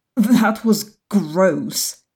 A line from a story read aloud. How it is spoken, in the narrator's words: she stammers